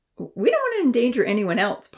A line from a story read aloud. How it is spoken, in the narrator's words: Ponzi piped up with a comical grin